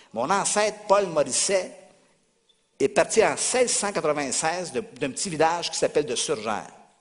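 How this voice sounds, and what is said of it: North American French accent. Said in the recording (French): “mon accent a été un peu changé. C'est la déformation d'Amérique.”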